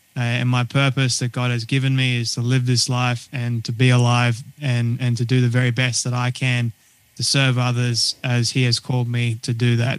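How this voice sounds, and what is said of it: Australian accent. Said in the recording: “they're picking up an accent ... I was born and raised in Sydney, Australia”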